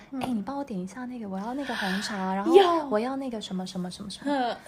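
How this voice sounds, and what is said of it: Very quiet, coy affected girlish voice. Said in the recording (Chinese): “很小声，很小声 ... 娇声娇气的那种”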